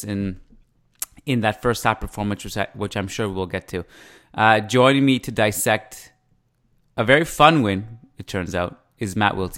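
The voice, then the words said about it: Canadian accent. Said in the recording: “I love the way you say October. It is so Canadian ... You have such a Canadian accent.”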